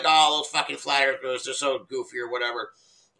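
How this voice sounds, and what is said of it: Mocking impression of a TV reporter. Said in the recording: “my impression of the TV person”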